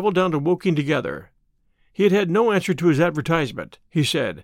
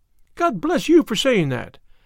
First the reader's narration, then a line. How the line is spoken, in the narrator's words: cried Miss Harrison